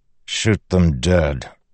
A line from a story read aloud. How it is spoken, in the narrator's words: Dalinar said calmly